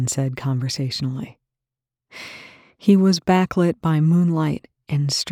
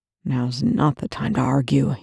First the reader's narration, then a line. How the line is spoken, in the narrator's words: Young growled